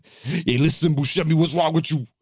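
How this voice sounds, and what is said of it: Mock Sicilian accent, Long Island-sounding. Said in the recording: “that was a pitch perfect Sicilian accent. They all sound like they're from Long Island.”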